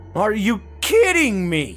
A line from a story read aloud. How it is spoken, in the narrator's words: Matt yelled